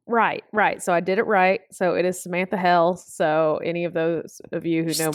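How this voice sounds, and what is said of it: Regional accent with shifted vowels. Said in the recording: “There's this accent. I know it's an accent. ... this weird tweak ... at the very end, your mouth's just like, I don't want to say it completely right. ... you go up heels. You don't go up hills. You get the meal. You don't get the mail.”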